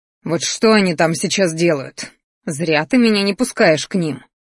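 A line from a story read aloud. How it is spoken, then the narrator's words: Growled. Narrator (Russian): рычал Кир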